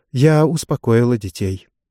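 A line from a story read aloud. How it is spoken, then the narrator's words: Calm matter-of-fact report. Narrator (Russian): она спокойно, как сержант, докладывающий расстановку пикетов, сказала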